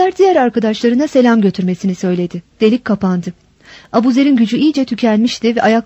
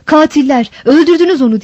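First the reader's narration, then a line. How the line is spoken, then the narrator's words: Outcry heard. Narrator (Turkish): diye bir haykırış işitildi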